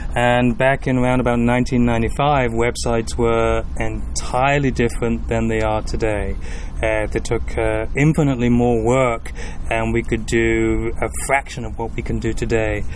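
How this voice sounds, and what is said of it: Northwest English accent. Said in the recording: “that accent is not the south end of Louisville ... people can't quite put their finger on my accent ... I grew up in the United Kingdom in the northwest of England”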